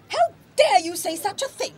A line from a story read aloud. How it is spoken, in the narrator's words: retorted Caterina hotly